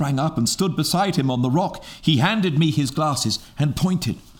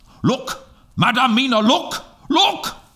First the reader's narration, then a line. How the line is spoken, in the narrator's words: Suddenly, called out